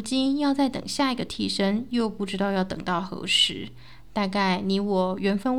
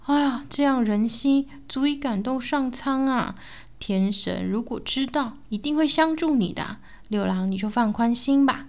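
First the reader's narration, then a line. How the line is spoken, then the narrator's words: Moved exclamation. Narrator (Chinese): 徐某感叹道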